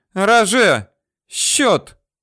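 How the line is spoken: Ringing shout, forced calm. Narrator (Russian): звонко крикнула Ракель Самуиловна, пытаясь успокоиться

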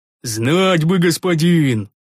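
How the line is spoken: Sighing. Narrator (Russian): вздохнул Рикар

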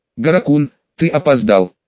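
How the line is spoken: Firm young woman's voice. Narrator (Russian): твердым голосом заметила девушка

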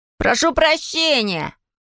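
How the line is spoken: Boy yelling. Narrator (Russian): заорал мальчишка

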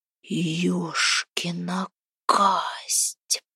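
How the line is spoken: Wheezing. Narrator (Russian): просипел Храпун

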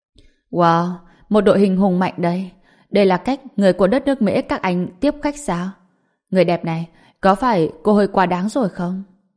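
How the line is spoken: Bursting laughter. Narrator (Vietnamese): Diệp Phàm cười phá lên, nói

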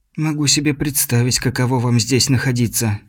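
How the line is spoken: Quiet. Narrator (Russian): сказала Инга негромко

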